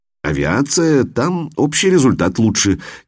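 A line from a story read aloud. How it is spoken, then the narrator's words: Uncertain speech. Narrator (Russian): неуверенно говорит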